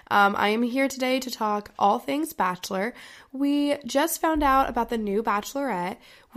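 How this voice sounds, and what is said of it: Congested, deeper-sounding sick voice. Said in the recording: “you may not recognize my voice ... I have a little bit of a cold ... I'm a little bit sick. I may sound like a man”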